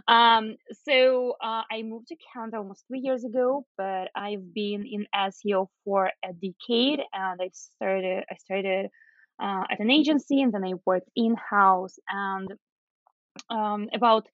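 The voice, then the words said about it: Unique non-Canadian accent. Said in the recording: “her accent doesn't sound like Canadian. Yes, it's not, but it's a unique accent and a combination of different things.”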